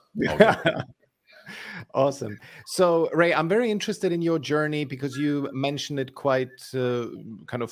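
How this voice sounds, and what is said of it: Austrian German accent. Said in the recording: “I was thinking Germany or something ... Yeah, no, that's the accent”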